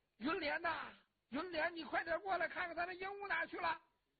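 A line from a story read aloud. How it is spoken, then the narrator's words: Old woman calling out. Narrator (Chinese): 老太太这就喊王世充的妹妹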